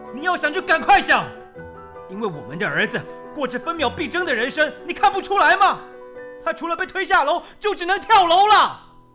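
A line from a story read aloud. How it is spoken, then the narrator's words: Unyielding roar. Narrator (Chinese): 张向成丝毫没有退让的意思，他吼叫着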